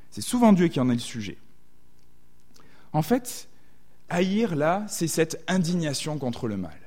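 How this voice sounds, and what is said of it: Southwestern French accent. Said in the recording (French): “J'ai un accent hein, du sud-ouest de la France”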